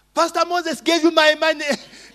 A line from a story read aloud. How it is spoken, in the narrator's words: Then the boy shouted, screamed in the supermarket